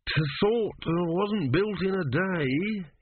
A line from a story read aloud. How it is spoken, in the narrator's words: he mumbled